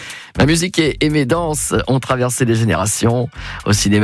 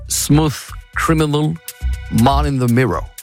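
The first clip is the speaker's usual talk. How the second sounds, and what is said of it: Put-on English or American accent. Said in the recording (French): “mon magnifique accent anglais ou américain”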